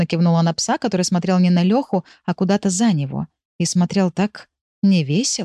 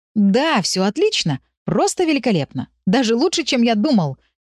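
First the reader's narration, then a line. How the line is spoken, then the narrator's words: Overly cheerful declaration. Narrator (Russian): немного слишком радостно заявил Лёшка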